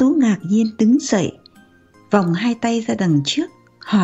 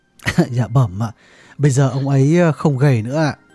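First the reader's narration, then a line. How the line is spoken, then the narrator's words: Bursting out laughing. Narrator (Vietnamese): Điệp bật cười nói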